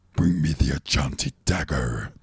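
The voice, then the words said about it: Cheesy 80s devil villain voice. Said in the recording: “the devil voice ... Stupid voice. Fucking cheesy 80s ... Bad guy voice”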